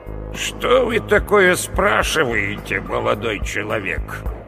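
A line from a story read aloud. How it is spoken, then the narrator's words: Creaky voice overhead. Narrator (Russian): Проскрипело над головой, пожилого мужчину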